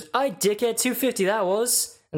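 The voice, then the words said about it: Poor Scouse accent, sounds Australian. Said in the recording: “That was a terrible Scouse, by the way... That sounded more Australian than anything.”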